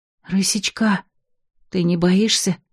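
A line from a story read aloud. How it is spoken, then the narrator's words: Silent, mouthed whisper. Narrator (Russian): прошептала одними губами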